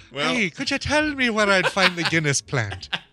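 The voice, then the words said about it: Put-on Irish accent. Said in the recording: “don't try to imitate the Irish accent.”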